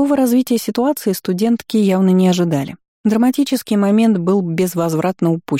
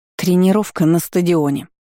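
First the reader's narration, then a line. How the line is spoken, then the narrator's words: Angry curt remark. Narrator (Russian): зло бросила староста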